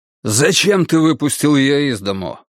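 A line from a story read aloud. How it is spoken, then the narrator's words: Angry. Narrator (Russian): сердито спросил Константин Демирис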